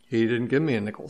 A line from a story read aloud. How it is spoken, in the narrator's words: said Almanza